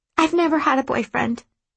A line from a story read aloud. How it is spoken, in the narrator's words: Mirren blurts